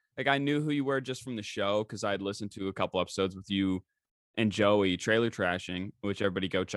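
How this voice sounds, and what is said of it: Usual voice. Nothing is said of it.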